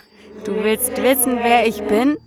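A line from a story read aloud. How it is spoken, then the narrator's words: Laughing. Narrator (German): sagte es lachend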